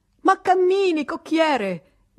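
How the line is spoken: Shouted. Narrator (Italian): gridò papà Goriot

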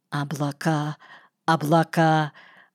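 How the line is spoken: Disbelieving mutter. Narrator (Russian): бормотал Норос, как будто не веривший своим глазам

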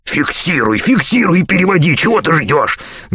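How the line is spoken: Angry hiss. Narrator (Russian): гневно прошипел телепату Нагатарекс, скрытый в двуногой кукле

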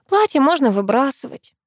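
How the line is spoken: Sad speech. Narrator (Russian): грустно проговорила

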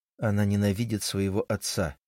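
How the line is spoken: Quiet mutter. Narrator (Russian): тихо пробормотал я

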